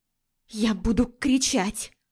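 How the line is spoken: Trembling threat. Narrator (Russian): Дрожащим голосом угрожает тетка Полины

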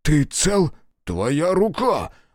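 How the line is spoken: Strained, forced out. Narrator (Russian): выдавила Аяшики

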